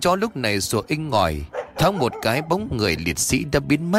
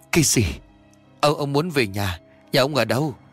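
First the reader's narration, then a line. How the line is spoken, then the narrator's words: Trembling old man stammering. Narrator (Vietnamese): chân tay của ông run lên bần bật, miệng lắp bắp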